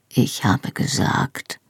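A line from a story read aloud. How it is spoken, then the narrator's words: Quiet answer. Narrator (German): antwortete er leise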